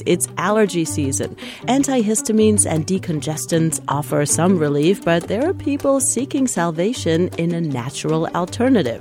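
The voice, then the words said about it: Congested, stuffy-nosed voice. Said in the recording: “Oh, runny nose, itchy red eyes... You can probably hear it in my voice.”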